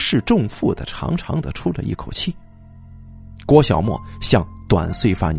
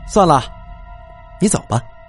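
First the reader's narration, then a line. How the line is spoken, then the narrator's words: Cold snort. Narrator (Chinese): 名叫江梦的长发女生这才冷哼一声说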